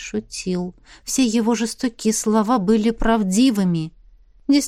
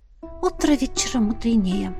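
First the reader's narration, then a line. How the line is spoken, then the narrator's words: Whispered. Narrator (Russian): шепнула она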